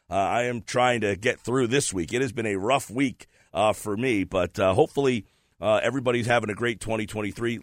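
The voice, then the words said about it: Sick, under-the-weather voice. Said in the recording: “I've been under the weather, if you might be able to hear in my voice.”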